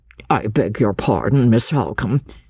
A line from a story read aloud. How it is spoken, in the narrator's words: interposed the schoolmaster a little uneasily